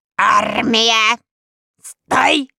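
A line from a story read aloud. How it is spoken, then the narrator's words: Deafening bark. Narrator (Russian): оглушительно рявкнул Ланпирот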